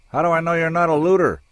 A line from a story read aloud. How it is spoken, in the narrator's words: shouted